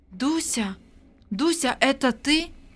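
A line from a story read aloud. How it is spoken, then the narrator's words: Weak quiet voice. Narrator (Russian): Вера бессильным голосом произнесла тихо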